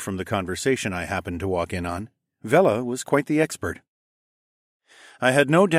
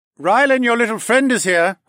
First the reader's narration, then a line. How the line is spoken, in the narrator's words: Horace shouted